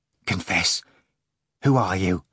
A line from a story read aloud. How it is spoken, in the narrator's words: Ivan asked in a hollow voice